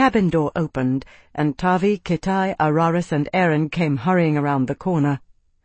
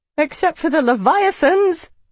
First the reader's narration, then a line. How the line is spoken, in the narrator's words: Aaron sputtered